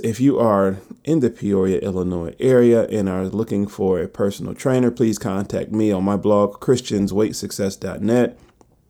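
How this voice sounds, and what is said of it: Slow, tired-sounding speech. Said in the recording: “I'm talking very slow today because I am tired. Um, I'm kind of worn down.”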